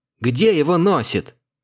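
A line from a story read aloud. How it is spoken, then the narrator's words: Lamenting. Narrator (Russian): причитая, она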